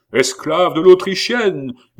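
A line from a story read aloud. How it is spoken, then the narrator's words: Fishmongers yelling. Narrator (French): hurlaient les poissards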